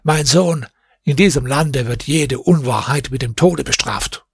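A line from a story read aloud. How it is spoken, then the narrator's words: Old man speaking. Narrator (German): der Greis sah ihn scharf an und sagte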